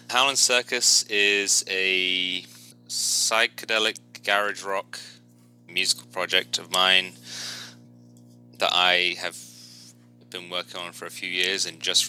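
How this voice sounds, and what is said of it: British accent. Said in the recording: “As you might tell from my accent, I'm from the UK”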